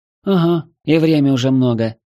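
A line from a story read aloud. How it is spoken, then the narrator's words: Worried sigh. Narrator (Russian): озабоченно вздохнула Хельга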